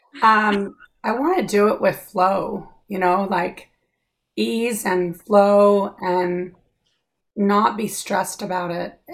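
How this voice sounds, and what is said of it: Hoarse voice cutting in and out. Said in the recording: “I'm kind of losing my voice, so if it goes on in and out”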